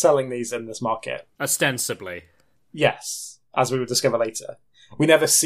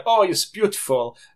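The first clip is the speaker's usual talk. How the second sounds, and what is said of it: Bad generic foreign put-on accent. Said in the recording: “That wasn't even French. That was just a terrible accent. ... Generic foreign.”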